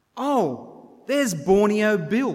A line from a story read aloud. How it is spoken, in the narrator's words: one of them shouted out